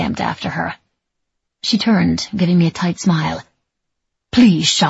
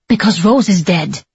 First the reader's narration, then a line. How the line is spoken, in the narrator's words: she snapped at last